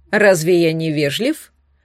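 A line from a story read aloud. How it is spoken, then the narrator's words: Calm inquiry. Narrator (Russian): спокойно поинтересовался наследник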